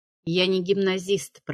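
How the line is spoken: Muttered. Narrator (Russian): пробормотал он

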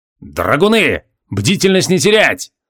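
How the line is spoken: Growled order. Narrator (Russian): рыкнул на подчиненных Джориан

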